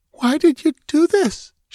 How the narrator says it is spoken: she begged

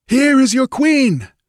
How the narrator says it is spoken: yelled Valerius, straining to make himself understood above the clamor

